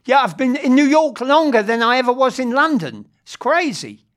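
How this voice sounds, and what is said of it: London English accent. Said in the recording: “from London ... Your accent stayed true though”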